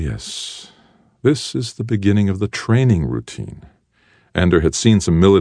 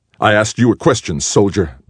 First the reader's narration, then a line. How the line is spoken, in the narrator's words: barked Graf